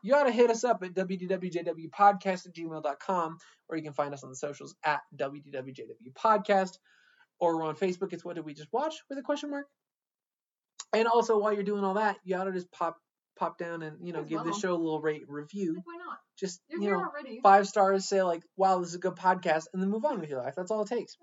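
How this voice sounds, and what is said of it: Very fast rushed speech. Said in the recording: “I said that fast because I wanted to get through it”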